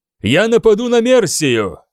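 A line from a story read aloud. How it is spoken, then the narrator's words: Loud and confident. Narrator (Russian): громко и уверенно проговорил этот человек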